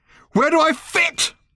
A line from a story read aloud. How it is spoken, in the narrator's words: screamed Random suddenly